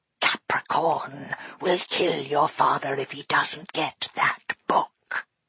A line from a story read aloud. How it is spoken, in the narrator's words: hissed Dustfinger